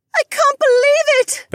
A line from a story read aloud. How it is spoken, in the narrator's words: Becca squealed